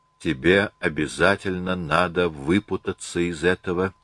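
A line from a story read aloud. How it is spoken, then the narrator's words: Quiet self-directed threat. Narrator (Russian): тихо погрозила она себе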